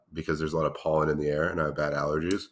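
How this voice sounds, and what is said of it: Congested, slightly off voice. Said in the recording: “I'm very congested at the moment ... my voice sounds a little off today ... it does sound a little off”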